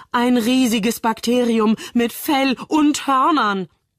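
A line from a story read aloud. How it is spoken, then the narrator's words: Mock panic shout. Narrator (German): rief Moritz in gespielter Panik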